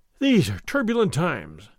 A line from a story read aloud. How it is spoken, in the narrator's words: Don Diego continued, sighing